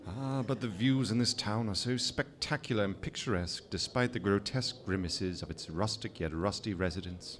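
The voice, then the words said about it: English accent. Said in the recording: “that sexy accent of his ... our resident limey ... leave England”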